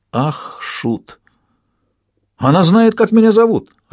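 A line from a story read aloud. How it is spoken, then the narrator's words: Joyful exclamation. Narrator (Russian): радостно воскликнул он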